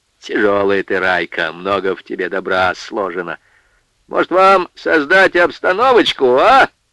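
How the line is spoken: Sarcastic question. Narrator (Russian): Язвительно спросил Егорша

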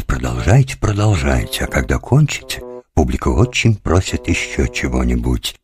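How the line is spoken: Very delicate whisper. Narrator (Russian): думал очень деликатно прошептать

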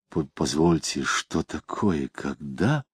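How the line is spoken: Mutter. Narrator (Russian): Самгин пробормотал

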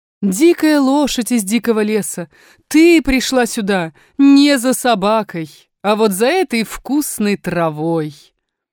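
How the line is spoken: Woman, laughing. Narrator (Russian): Женщина засмеялась и сказала

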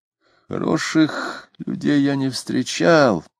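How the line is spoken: Thoughtful, sad. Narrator (Russian): говорил Митрофанов, задумчиво и печально

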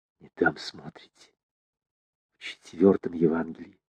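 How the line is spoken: Stern whisper. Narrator (Russian): Сурово прошептала она

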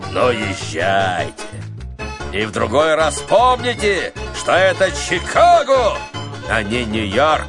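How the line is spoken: Booming laughing giant bass. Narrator (Russian): гигант вдруг захохотал страшным басом и сказал

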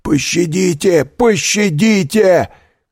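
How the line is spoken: Shouted. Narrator (Russian): кричал Кадрус

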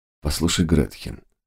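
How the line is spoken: Calm. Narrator (Russian): сказал он спокойно

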